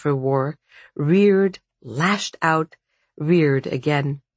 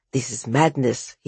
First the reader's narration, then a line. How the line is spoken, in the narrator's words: he muttered